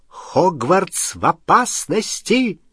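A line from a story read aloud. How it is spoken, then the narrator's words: Exclaiming. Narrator (Russian): воскликнула профессор МакГонагалл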